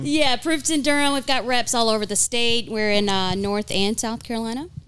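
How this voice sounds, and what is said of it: Eastern North Carolina accent. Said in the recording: “This is a Eastern North Carolina accent.”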